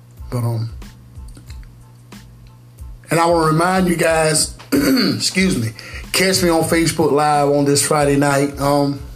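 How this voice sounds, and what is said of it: Slightly hoarse, strained voice. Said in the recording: “Kind of losing my voice a little bit because, I'm so worked up, man.”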